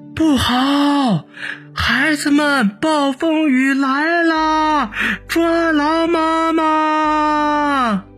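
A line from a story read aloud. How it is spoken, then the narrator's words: Mother speaking loudly. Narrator (Chinese): 荔枝树妈妈大声的说道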